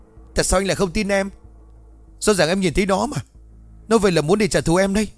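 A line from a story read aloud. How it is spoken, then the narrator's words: Frustrated sudden scream. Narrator (Vietnamese): Xuân lúc này cũng đang ức chế, bất chợt nó hét toáng lên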